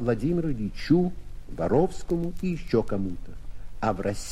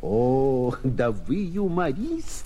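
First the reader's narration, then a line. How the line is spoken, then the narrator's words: Speaking through laughter. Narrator (Russian): говорил сквозь смех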